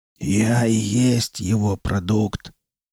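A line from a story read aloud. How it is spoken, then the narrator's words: Hoarse and rough. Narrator (Russian): голос Дормана все еще был хриплым и грубым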